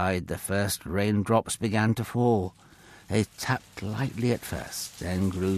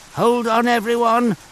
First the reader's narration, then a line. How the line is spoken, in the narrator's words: Noah called out